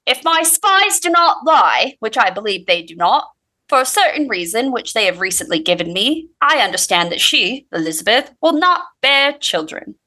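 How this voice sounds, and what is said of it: Put-on Cockney accent. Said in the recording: “Great accent. ... I just go Cockney no matter what. I think that's Cockney.”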